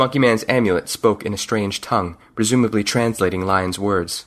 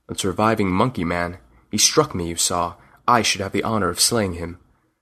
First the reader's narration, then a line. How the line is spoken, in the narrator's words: He said in a low voice